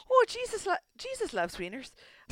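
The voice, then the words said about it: Attempted Minnesota accent, slipping Irish. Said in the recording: “Say that line in Minnesota accent ... I went Irish for a second ... You sound like a creepy old man, like from Family Guy ... It's very Fargo”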